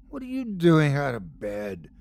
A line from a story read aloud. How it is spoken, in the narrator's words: croaked Coral